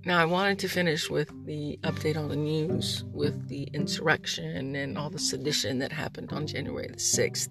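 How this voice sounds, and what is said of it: Quiet, lower, mellow late-night voice. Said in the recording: “Right now I'm a little bit more mellow. ... it's also 3 a.m. ... it's a little bit, you know, quieter. I'm a little bit more, you know, my voice is a little bit lower. But I also have the mouth thing”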